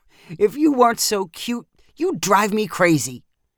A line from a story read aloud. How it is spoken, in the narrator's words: Danny laughed and said